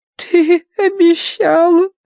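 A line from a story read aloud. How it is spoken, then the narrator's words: Whimpering, lip quivering. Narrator (Russian): кривя нижнюю губу, захныкала Агнес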